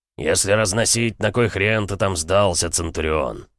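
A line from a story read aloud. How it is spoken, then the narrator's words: Deep bass voice. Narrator (Russian): пробасил Бронзовый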